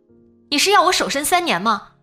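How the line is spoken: Fierce shouting. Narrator (Chinese): 他大喊起来，语气恶狠狠的

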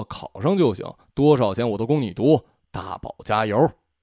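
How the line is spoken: Low voice. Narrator (Chinese): 老宋低声说

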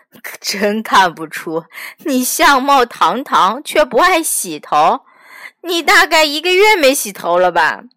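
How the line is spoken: Plain. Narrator (Chinese): 毛尔东正想说

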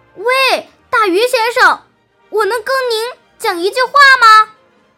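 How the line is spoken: Loud calling out. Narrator (Chinese): 匹诺曹不知道鱼的名字，于是他高声大叫，好使他听到

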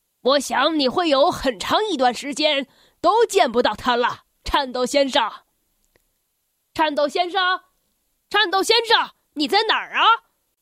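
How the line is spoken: Laughing. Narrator (Chinese): 噪音先生忍不住笑着说

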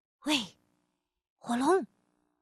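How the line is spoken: Soft, quiet. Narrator (Chinese): 伊丽莎白轻声地说

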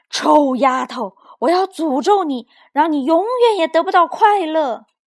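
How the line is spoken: Loud angry shout. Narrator (Chinese): 公爵大声喊道

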